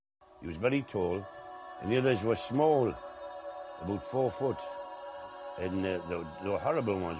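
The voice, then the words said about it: West Country English accent. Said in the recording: “Is this like a West Country accent?”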